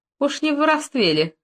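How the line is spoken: Short laugh. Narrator (Russian): хохотнула Нюрка

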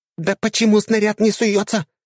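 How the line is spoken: Shouting. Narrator (Russian): кричала механик

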